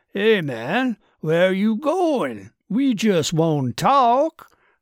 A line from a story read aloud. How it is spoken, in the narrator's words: called out Do-Rag